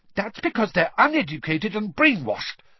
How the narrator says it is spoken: Hermione began hotly

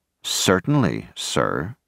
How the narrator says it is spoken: She answered coldly

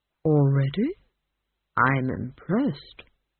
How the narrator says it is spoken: said the tree

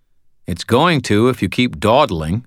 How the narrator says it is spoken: I said

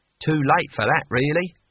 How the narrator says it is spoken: said Cohen

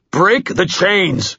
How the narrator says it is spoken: he yelled

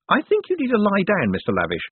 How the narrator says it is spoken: said Moist cheerfully

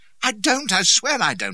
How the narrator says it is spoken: I shouted

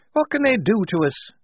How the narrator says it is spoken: said Shifty nervously

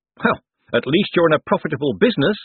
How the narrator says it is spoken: said Moist cheerfully

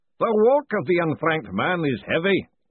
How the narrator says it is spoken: the booming voice intoned

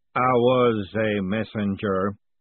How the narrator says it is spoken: Aghamarad rumbled

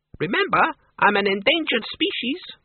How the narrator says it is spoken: the Count squeaked

